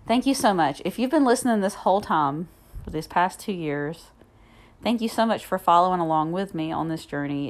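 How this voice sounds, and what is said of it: Southern US accent. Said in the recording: “my southern accent”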